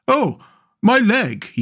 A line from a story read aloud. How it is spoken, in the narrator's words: he cried